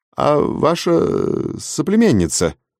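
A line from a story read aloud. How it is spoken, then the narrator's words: Insinuating question. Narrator (Russian): вкрадчиво спросил завлап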